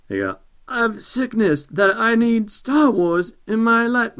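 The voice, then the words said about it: Poor celebrity voice impression. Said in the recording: “the worst Christopher Walken impression I have ever heard”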